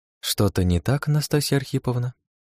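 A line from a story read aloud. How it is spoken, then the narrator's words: Innocent-sounding question. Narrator (Russian): Невинным тоном поинтересовалась она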